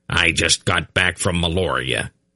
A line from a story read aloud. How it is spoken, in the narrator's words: he grunted